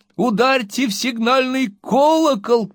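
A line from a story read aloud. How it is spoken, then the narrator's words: Several voices shouting. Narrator (Russian): крикнул несколько голосов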